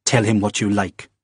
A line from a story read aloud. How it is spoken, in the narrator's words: snapped